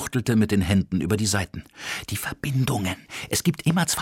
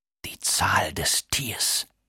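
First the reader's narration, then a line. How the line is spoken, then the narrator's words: Murmuring. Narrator (German): raunte er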